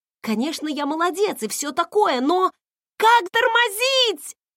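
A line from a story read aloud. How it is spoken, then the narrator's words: Yelling in reply. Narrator (Russian): завопила в ответ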